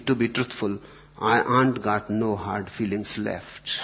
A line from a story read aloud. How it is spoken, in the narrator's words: Goldberg quietly